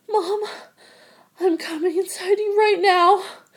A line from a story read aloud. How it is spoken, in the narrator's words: He looked into my eyes and moaned